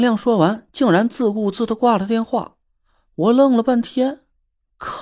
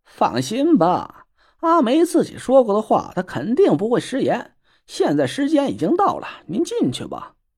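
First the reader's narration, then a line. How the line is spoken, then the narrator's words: Laughing. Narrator (Chinese): 蒋亮笑了起来，说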